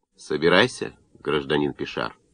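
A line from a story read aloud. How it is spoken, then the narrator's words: Calm, not angry. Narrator (Russian): Урбен не рассердился, а спокойно сказал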